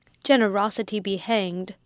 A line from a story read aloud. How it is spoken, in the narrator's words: Sir Pitt roared out